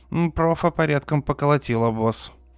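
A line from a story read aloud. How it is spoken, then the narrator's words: Gloomy, pained. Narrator (Russian): мрачно заметил Гибон, придерживая раненую руку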